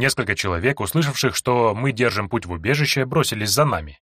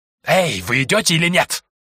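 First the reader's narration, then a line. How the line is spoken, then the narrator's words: Hiss. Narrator (Russian): прошипел Змеелюд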